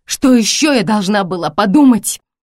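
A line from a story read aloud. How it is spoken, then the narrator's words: Hoarse shout. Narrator (Russian): хрипло крикнула я Джеку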